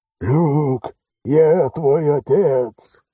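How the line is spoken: Hoarse yell. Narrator (Russian): хриплым голосом заорал Алекс

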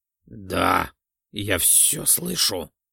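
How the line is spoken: Slightly strained voice. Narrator (Russian): чуть более сдавленным голосом произнес распорядитель игр

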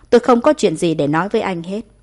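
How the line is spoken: Cold, through clenched teeth. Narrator (Vietnamese): Đường Nhật Khanh cắn răng, giọng nói lạnh lùng

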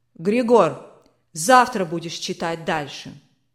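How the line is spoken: Commanding tone. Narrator (Russian): Властным тоном сказал барон

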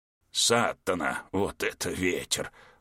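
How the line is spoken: Muttered. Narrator (Russian): пробормотал Пингеркоски

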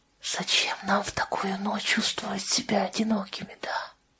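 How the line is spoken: Whispered. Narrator (Russian): прошептала Сэйди

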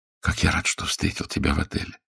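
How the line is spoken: Whisper at the nape. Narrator (Russian): шептал в затылок Джин

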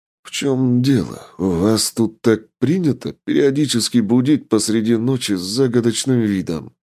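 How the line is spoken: Displeased wheeze. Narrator (Russian): Недовольно просипел я

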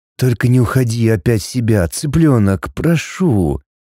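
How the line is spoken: Resigned whisper. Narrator (Russian): Обреченно прошептал он

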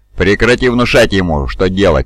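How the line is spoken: Growled by another voice. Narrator (Russian): прорычал другой голос

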